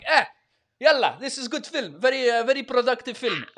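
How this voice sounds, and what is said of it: Put-on stock villain accent. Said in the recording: “I don't know why I'm speaking in a fucking standard bad guy accent.”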